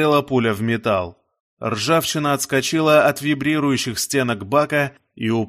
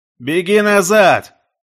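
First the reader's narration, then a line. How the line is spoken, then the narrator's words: Pirate shouting. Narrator (Russian): крикнул пират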